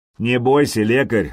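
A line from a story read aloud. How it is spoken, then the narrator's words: Mocking. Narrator (Russian): насмешливо произнес Сергей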